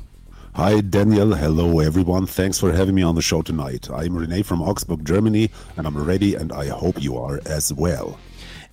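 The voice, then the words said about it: Deep voice. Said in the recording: “the deep voice”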